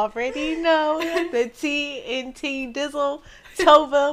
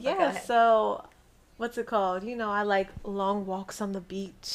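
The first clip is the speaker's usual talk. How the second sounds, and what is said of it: Lowered, deeper voice. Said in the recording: “lower my voice.”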